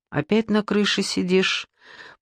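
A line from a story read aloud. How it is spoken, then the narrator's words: Tired question. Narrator (Russian): поинтересовалась Надя устало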